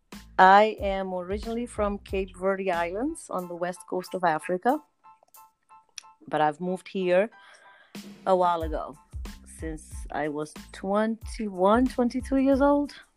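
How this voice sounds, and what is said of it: Noticeable foreign accent. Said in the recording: “I hear an accent.”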